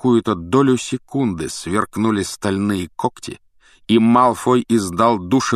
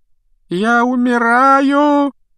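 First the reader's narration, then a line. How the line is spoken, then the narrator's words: Loud moaning. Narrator (Russian): громко стонал Малфой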